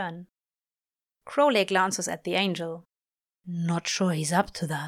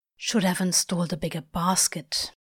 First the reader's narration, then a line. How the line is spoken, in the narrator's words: Crowley mutters in Aziraphale's ear